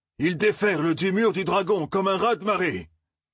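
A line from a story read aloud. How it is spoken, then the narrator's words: Sudden powerful, angry voice. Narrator (French): dit soudain Tam d'une voix puissante et vibrante de colère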